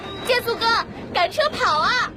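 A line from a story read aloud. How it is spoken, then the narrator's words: Shouting. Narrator (Chinese): 闹闹毫不惧怕 嚷着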